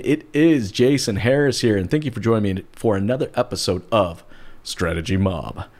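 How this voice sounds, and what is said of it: Lowered, deeper voice. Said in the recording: “every time I say that, I lower my voice. I guess because it just sounds cool.”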